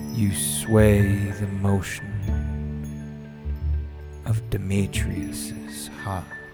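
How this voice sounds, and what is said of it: Reciting Shakespeare in put-on accent. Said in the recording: “Why did I do that one with an accent?”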